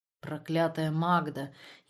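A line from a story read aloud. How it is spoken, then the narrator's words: Slurred thick-tongued mumbling. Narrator (Russian): еле ворочая распухшим языком, бормотал Ранер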